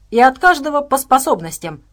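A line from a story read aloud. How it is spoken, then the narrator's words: Angry bark. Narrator (Russian): гневно рявкнул Максим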